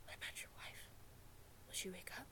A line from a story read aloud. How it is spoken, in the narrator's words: whispered